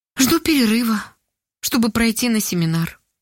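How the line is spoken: Sad reply. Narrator (Russian): грустно ответила Ольга

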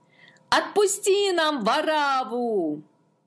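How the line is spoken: Crowd shouting. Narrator (Russian): Толпа, наученная священниками, закричала

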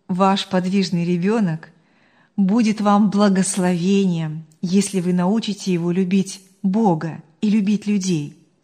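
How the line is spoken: Calm and firm. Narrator (Russian): спокойно и твердо сказала она

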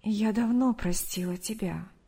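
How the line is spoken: Soft reply. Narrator (Russian): мягко ответила Мария

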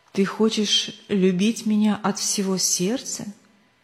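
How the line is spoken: Plain question. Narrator (Russian): спросил он

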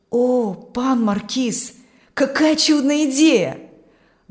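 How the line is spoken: Delighted exclamation. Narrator (Russian): воскликнул Аурелий восторженно

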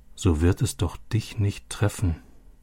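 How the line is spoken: Quiet repetition. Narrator (German): wiederholte Robbie leise

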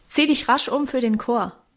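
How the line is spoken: Calling after someone. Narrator (German): rief Guste hinter ihr drein

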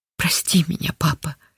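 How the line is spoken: Whispered against chest. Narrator (Russian): прижимаясь к отцовской груди, шептала

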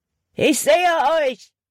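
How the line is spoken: Called out. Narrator (German): rief Hutton

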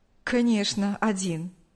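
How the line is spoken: Smirking. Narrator (Russian): усмехнулся Павел

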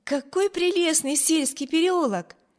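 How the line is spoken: Exclaimed. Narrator (Russian): воскликнула Эми

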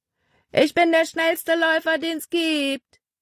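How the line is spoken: Calling out. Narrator (German): rief er ihnen zu

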